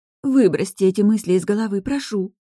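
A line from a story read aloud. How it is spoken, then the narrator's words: Sudden pleading. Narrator (Russian): внезапно взмолилась Мариса, хотя всегда предпочитала сохранять спокойствие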